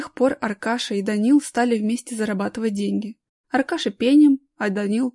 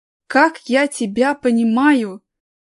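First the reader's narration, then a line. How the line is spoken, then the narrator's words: Heartfelt exclamation. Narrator (Russian): проникновенно воскликнул Аркаша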